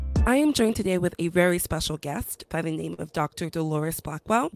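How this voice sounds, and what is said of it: Raspy, shaky sick voice. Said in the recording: “I caught a cold ... I may sound like I'm chain smoking a pack of Newports ... my voice is shaky and I'm still a little bit like sick still”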